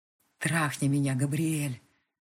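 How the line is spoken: Hoarse, inviting voice. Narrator (Russian): Голос хриплый, зовущий

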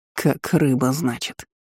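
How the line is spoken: Smirking grunt. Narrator (Russian): хмыкнул император

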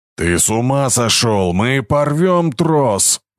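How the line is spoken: Roaring. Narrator (Russian): взревел Харви

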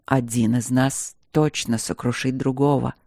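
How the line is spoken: Quiet reply. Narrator (Russian): ответил он тихо ей в висок

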